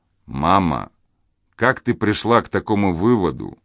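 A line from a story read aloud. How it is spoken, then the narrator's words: Soft, gentle, embarrassed question. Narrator (Russian): негромко и мягко спросил Ронни, испытывая неловкость и стыд за вспышку раздражения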